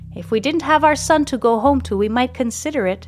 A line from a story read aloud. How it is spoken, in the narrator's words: replies Mandolina warmly